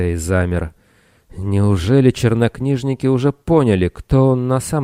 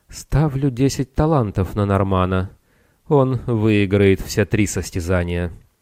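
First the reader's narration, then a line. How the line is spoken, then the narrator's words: Soft, feminine voice. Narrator (Russian): Минос мягко произнес своим женственным голосом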